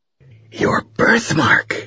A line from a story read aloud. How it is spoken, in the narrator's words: whispered